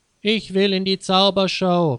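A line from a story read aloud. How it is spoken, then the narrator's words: Called out. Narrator (German): rief Peter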